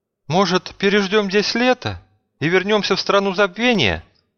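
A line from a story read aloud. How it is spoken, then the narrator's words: Hesitant suggestion. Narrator (Russian): неуверенно предложила Надежда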